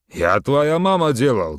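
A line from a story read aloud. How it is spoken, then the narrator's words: Loud. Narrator (Russian): громко сказал жирный вагон-ресторанщик Садык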